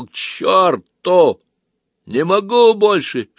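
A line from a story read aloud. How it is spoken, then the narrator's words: Shouted. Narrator (Russian): Сергей таким голосом крикнул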